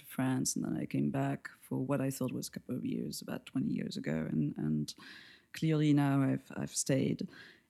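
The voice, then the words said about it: French accent. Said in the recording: “where I come from geographically is from France, as everybody will probably guess from my accent”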